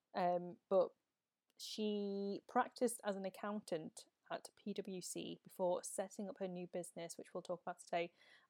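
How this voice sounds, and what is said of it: Northern English accent. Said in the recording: “I obviously have my Northern accent”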